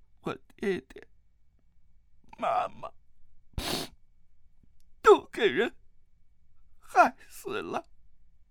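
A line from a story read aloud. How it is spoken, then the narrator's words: Sobbing, tearful. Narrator (Chinese): 他脸上泪水纵横，兀自呜咽，哭道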